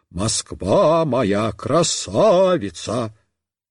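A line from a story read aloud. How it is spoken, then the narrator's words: Sudden bass singing. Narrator (Russian): вдруг запела басом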